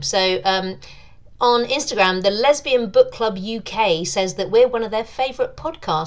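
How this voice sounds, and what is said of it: British accent. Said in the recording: “podcast voice is fabulous. She really enjoys the British accent.”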